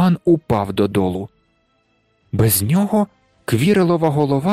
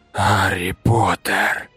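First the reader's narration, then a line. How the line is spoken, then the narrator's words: Creature hissing. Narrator (Ukrainian): просичало воно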